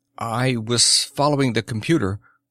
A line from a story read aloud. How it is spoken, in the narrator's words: said Krabo in a slightly wavering voice